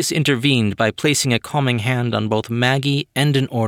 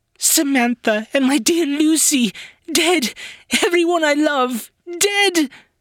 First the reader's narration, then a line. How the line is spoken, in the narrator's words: Her screams rose to a shriek